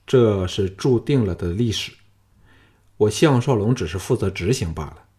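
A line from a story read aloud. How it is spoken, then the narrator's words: Calm, insinuating. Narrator (Chinese): 项少龙语带双关的淡淡说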